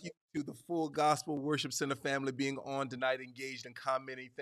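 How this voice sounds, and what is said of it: Southern American accent. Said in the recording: “You got my Southern accent coming out even more”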